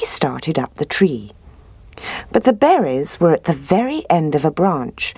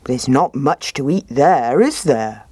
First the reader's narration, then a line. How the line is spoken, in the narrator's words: he said